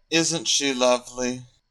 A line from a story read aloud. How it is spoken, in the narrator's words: Harry sighed